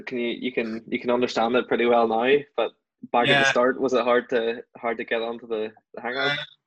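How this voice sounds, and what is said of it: Northern Irish County Down accent. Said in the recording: “Our accent, we're from the southern part of, we're from County Down, but our accent would be confused with the Ballymena ones quite a lot”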